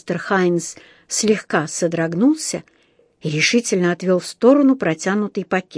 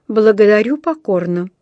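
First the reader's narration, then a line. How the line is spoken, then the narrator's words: Dry refusal. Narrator (Russian): сухо отказался он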